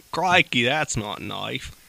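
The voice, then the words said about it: Put-on Australian accent drifting Southern. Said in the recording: “The Australian accent? ... Start out very Australian, and then I go straight into Forrest Gump. ... you kind of just started out sounding like a southern man.”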